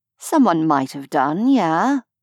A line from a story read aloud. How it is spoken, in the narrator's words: Vesh said cheerfully